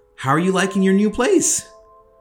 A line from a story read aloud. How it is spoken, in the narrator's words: Her voice was quivered